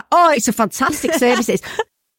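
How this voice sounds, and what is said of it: Attempted Mancunian accent. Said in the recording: “I can't do a Manc accent.”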